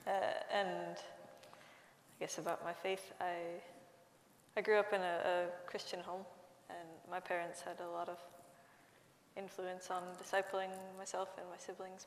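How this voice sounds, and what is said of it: American Midwestern accent. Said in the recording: “You can probably tell from my accent that I'm not from the UK. I grew up in Minnesota, in the north of the United States.”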